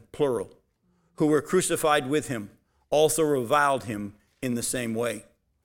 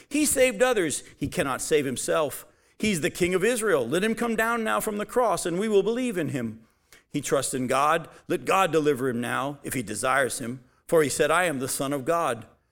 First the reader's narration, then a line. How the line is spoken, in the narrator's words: the chief priests with the scribes and elders mocked him, saying